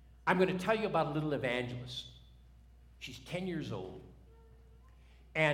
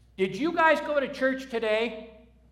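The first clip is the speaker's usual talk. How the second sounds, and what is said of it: Commanding child's voice. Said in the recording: “in her commanding voice”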